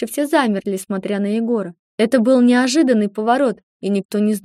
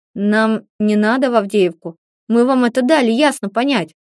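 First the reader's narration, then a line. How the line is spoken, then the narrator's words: Angry through teeth. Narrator (Russian): злобно процедил сквозь зубы Егор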